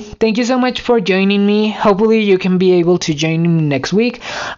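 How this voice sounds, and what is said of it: Tired, strained voice. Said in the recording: “I'm losing my voice right now ... I'm way too tired”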